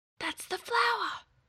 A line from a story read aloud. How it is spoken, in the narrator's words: Scrat whispered again